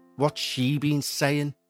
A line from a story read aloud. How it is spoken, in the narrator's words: She muttered through gritted teeth